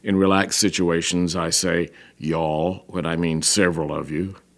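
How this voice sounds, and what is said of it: Middle-class American, hint of Southern. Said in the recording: “my prevailing accent is the one you hear now, the accent of a middle-class American who now and then flashes a hint of his deep-dyed southernness and his happy years in Britain”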